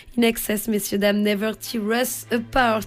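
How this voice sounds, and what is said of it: Clumsy attempted English accent. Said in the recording (French): “C'est horrible. Bon, j'essaye avec l'accent, mais que voulez-vous ? C'est compliqué.”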